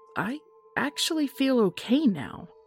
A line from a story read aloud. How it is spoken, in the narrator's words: I said hesitantly